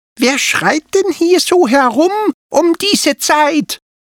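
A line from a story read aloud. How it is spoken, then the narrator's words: Squeaky voice. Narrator (German): hörten die Drachenkinder plötzlich eine piepsige Stimme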